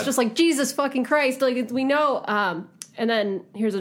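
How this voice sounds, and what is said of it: Usual voice. Nothing is said of it.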